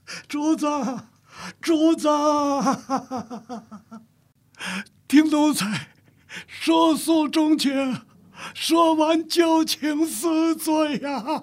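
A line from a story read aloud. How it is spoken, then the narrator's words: Wailing, sobbing. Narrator (Chinese): 镜子长嚎一痛，嚎啕大哭道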